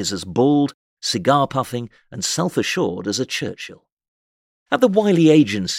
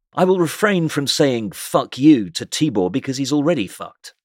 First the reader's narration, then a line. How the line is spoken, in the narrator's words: he will merrily remark